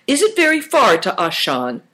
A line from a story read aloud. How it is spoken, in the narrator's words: Chin laughed